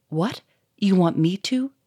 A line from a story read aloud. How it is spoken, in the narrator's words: said Victor in a shaky voice